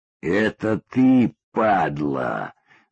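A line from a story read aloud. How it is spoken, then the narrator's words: Hissing man. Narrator (Russian): зашипел кореец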